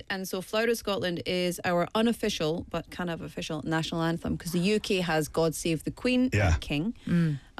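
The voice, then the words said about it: Scottish accent. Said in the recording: “my fellow Scottish countrymen ... That's my accent.”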